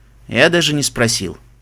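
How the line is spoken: Guilty tone. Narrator (Russian): виноватым тоном ответил Себастьян

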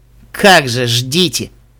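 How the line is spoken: Grumbling. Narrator (Russian): буркнул Даймонд Тиара

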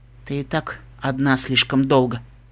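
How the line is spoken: Soft female voice. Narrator (Russian): тихо сказала вороная единорожка

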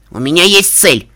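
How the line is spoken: Shouting. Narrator (Russian): закричала я

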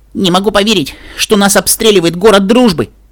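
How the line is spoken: Shouting. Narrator (Russian): прокричала я

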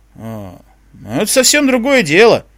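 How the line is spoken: Energetic exclamation. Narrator (Russian): воскликнул, энергично поднимаясь

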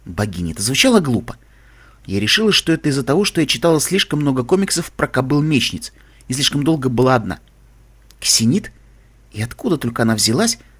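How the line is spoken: Whisper in ear. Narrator (Russian): прошептала мне на ухо

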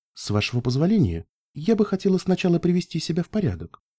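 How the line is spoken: Quiet voice. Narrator (Russian): тихим голосом ответила

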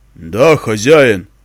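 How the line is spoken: Deep booming bass. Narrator (Russian): произнесла кукла низким шаляпинским басом

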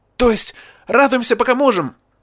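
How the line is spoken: Exclaimed. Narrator (Russian): воскликнула Эппл Блум

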